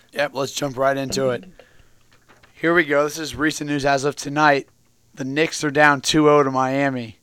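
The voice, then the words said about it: Hoarse, strained voice. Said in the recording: “what's up with ... voice right now? ... I kind of lost my voice a little bit ... Just absolutely screaming at the TV”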